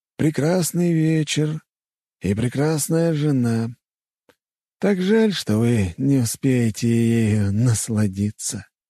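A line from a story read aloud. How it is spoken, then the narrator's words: Sigh. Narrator (Russian): вздохнул незнакомец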